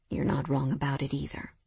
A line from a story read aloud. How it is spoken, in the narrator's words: Mason said honestly, his voice low